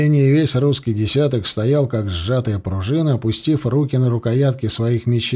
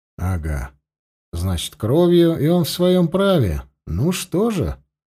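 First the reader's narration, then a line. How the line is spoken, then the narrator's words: Calm. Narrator (Russian): спокойно проговорил сотник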